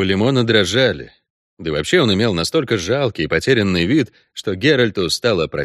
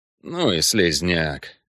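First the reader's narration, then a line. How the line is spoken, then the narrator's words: Grumble. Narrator (Russian): буркнул Кайон из кресла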